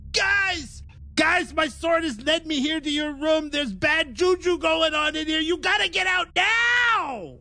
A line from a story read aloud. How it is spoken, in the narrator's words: I just yell out